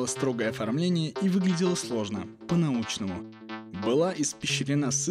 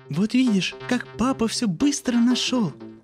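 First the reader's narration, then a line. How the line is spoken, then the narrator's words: Joyful exclamation. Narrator (Russian): Радостно воскликнула жена Мухина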